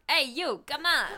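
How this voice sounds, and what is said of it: Put-on New York accent. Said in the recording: “I got a New York accent”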